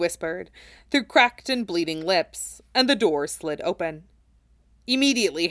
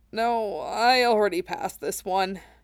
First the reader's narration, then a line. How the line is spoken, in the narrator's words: Cloud croaked